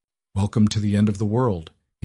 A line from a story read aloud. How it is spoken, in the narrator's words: he said, his voice flat